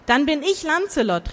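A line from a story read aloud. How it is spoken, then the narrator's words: Quick call. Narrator (German): rief schnell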